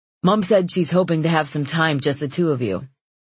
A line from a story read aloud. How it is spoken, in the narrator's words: he says